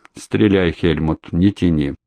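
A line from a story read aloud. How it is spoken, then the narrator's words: Cold. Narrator (Russian): Солдов холодно проговорил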